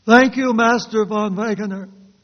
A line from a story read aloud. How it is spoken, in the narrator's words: she cried